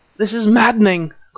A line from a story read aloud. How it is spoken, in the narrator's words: cried Nayland Smith